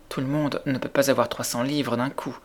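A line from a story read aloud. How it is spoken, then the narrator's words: Stammering. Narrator (French): balbutia Mary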